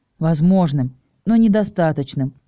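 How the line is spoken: Sighing. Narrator (Russian): вздохнул Ник

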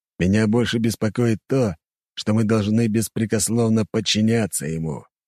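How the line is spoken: Gloomy remark. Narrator (Russian): мрачно заметил главный стражник

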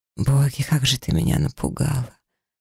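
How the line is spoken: Hoarse rasp. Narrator (Russian): прохрипел мужчина

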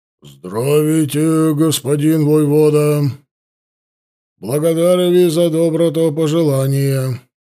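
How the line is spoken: Deep booming old bass. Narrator (Russian): густым сильным басом, совсем не вяжущимся с его преклонным возрастом, прогудел староста

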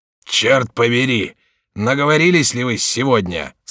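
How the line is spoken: Gruff man's voice. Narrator (Russian): сказал грубым голосом вошедший конетабль Монмаранси

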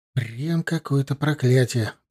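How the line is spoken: Muttering. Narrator (Russian): пробормотал Корнел Хестеру

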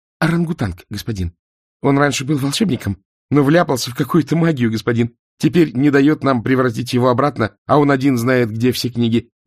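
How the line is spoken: Rapid chatter. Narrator (Russian): протараторил Ринсвинд

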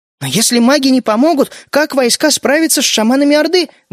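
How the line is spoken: Exclaiming. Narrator (Russian): воскликнула Мидори

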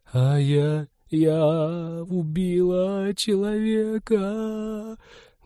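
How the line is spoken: Muffled sobbing. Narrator (Russian): Глухо рыдала Ивета ей в грудь

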